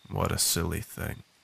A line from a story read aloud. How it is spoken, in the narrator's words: spoken dryly and with a frustrated tone